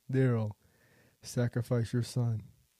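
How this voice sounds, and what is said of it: Deep booming voice as God. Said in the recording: “God's like, Darrell, this is my deep voice.”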